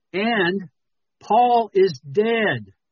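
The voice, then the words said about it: Yelling dramatically. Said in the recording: “I'm yelling. I'm just trying to be dramatic.”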